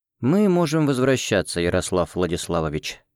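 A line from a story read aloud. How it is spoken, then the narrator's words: Quiet. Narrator (Russian): негромко сказал Кирилл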